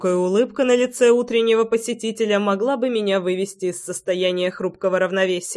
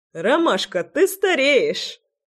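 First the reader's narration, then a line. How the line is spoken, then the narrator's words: Laughing loudly, brother. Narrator (Russian): расхохотался брат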